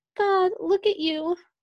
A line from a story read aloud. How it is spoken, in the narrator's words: half laughed, half cried